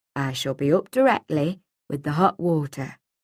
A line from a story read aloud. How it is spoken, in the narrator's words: he said quietly from the corner of his mouth